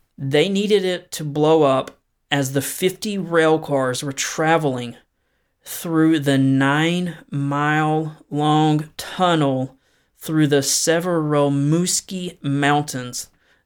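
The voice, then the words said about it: Southern US accent. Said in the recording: “my struggling southern accent”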